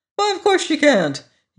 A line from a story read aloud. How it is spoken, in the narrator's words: he cried